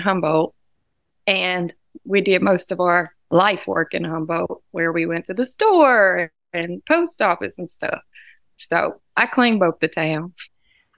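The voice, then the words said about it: Southern American accent. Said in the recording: “I miss the Southern accent. So it's actually really refreshing and invigorating for me to hear it from you today”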